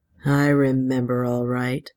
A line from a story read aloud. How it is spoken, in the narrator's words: Ed said grimly